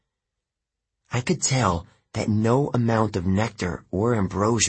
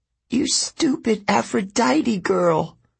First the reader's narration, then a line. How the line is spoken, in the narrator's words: Clarice sobbed